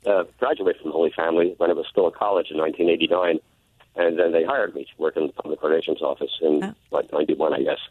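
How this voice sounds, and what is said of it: Hoarse, congested voice from a cold. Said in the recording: “Pardon my voice. I'm battling a nasty summer cold.”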